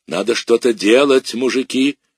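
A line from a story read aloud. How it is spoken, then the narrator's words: Roar. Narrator (Russian): взревела она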